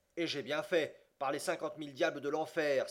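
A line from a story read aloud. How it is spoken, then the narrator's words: Exclaimed. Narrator (French): s'écria Andrew Speedy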